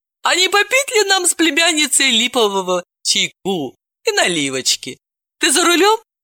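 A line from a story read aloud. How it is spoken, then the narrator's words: Laughing, mischievous offer. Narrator (Russian): рассмеялась тетушка Мара и озорно предложила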